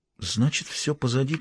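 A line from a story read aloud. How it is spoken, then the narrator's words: Quiet. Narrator (Russian): тихо произнесла она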